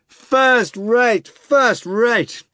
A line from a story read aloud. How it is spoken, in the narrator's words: rapturous shouts